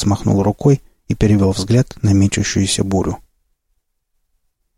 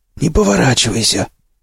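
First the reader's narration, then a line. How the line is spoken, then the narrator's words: Hoarse, wheezing voice. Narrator (Russian): Хриплый, с подсвистом, голос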